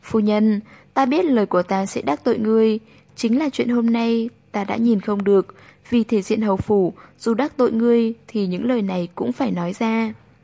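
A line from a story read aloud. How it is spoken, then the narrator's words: Smiling speech. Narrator (Vietnamese): mỉm cười nói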